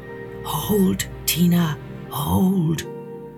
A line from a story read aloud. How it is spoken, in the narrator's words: he whispered